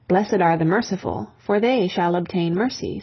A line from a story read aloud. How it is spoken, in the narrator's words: said Christ